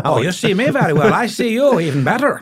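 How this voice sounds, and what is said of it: Imitated musical Irish accent. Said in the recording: “everybody had these amazing musical accents ... love the Irish accent”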